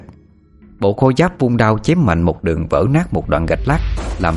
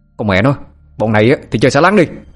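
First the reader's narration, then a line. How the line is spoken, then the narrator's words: Loud shout. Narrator (Vietnamese): Nó quát lớn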